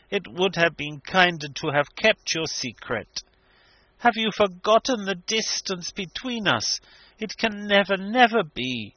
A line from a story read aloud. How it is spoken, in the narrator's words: she said sadly